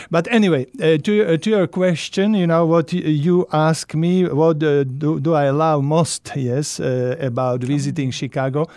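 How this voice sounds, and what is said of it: Heavy Eastern European accent. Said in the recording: “English is not my first language ... my heavy Eastern European accent”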